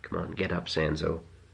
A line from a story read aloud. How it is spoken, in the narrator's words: she said softly